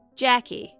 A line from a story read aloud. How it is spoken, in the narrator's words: my grandmother said